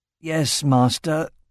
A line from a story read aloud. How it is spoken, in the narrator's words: groaned Aragorn